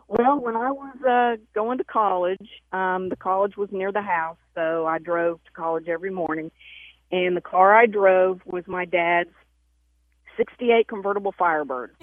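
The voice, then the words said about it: Southern American accent. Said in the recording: “please, Lord, let her have a southern accent. ... Well, I think I do. ... Oh, yes, ma'am. You certainly um, do.”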